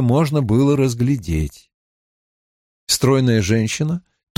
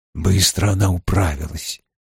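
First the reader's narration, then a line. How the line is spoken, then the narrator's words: Quiet, through clenched teeth. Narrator (Russian): тихо произнес Том, не разжимая зубов и не вынимая изо рта трубки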